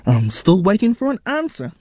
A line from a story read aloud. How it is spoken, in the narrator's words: his mother said impatiently